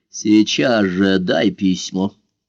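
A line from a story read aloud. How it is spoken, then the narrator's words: Menacing command. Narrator (Russian): Недобрым голосом приказал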